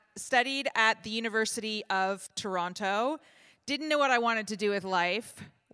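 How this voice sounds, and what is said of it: Canadian accent. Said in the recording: “I grew up on a farm in Canada. That's why my accent sounds the way that it sounds”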